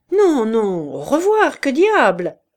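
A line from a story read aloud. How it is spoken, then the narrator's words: Cheerful exclamation. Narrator (French): s'écria gaiement le fabricant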